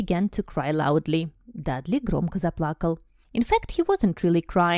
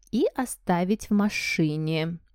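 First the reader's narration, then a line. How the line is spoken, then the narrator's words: Aunt speaking slowly. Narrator (Russian): медленно произнесла тетушка Петуния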